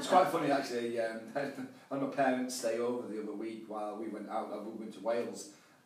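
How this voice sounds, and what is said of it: Yorkshire English accent. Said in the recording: “I've got a Yorkshire accent, so you don't always understand.”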